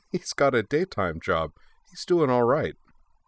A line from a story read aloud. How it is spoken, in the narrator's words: Mugi giggled and remarked